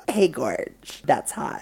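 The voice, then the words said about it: Imitates another person's voice. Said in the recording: “You just sounded like you were fucking melting. ... Are you Mick or Paris Hilton?”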